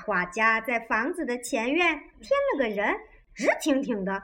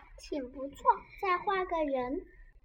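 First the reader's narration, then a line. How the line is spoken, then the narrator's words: Quiet. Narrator (Chinese): 汤姆小声说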